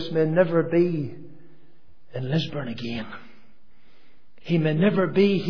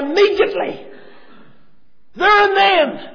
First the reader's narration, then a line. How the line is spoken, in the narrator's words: he cried out